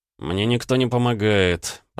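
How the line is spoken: Groaning. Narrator (Russian): простонал я

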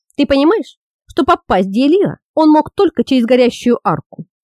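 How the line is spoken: Plain question. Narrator (Russian): спросил Тиир

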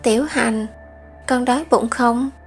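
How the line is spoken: Gentle woman's voice. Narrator (Vietnamese): nhẹ nhàng đối với cậu nói một câu

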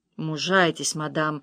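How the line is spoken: Plain. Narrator (Russian): сказал доктор

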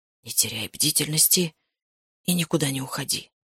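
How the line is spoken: Tense whisper. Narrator (Russian): напряженно прошептал он

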